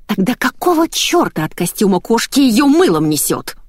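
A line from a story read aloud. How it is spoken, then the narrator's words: Angry hiss. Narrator (Russian): зашипела Ольга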